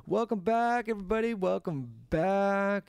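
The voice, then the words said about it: Weird put-on carnival-style voice. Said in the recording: “Why must you do like a weird accent?... Is it like a carnival voice?... What's with the accents”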